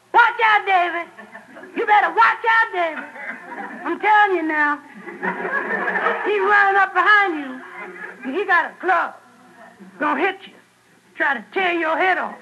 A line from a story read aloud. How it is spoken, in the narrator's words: She yelled